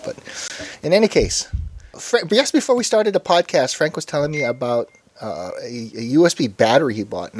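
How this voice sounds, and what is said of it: Congested, slightly odd speech. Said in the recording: “my speech is a little more odd than usual because I've got a bit of a cold”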